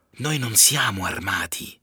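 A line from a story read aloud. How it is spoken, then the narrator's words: Whispered. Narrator (Italian): gli sussurro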